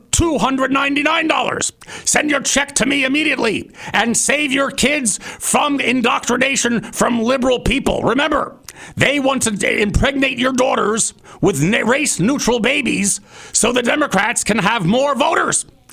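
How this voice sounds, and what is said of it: Alex Jones impression. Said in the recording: “Alex Jones... that was a fairly good impersonation... That was very good. But also a little bit of a Russian there. Rush Limbaugh.”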